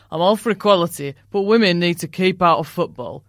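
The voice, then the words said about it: Put-on northern English accent. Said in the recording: “I'm sorry for the northern accent”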